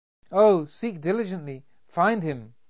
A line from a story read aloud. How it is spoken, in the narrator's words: cried Carmenita